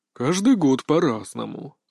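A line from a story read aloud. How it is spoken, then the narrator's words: Sighing. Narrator (Russian): вздохнул Кощеев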